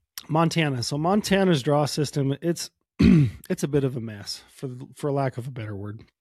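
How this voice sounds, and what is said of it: Slightly hoarse voice. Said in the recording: “I'm getting hoarse. ... I've had a cold ... So I apologize if I'm a little bit hoarse.”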